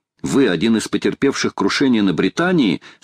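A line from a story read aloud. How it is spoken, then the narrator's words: Plain. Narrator (Russian): спросил Гленнерван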